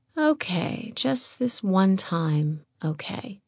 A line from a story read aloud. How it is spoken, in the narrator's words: He breathed into her